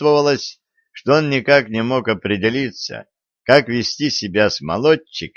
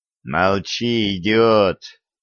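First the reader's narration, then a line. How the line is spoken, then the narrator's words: Hissed. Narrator (Russian): прошипел Семён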